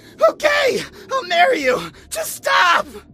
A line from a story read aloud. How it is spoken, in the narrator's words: I screamed